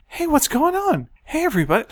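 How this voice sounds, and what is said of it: High-pitched imitation of younger self. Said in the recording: “my voice sounds ridiculous ... I just go up a lot ... Well, that's when you were a helium”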